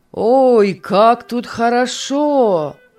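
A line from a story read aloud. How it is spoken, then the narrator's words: Exclaiming. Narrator (Russian): воскликнул он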